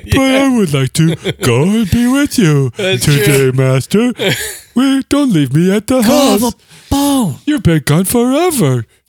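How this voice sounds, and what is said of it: Silly talking-dog character voice. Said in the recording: “doing your dog voice ... every voice that ... uses for dogs to describe how dogs would be talking ... It talks like this. It's a little bit of Brian Regan”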